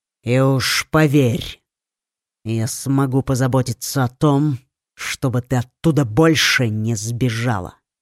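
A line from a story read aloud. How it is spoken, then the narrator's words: Angry prince. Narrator (Russian): злобно добавил принц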